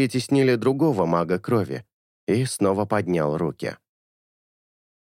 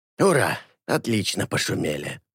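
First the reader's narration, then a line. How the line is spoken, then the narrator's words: Grumbling. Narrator (Russian): Пробурчал Алета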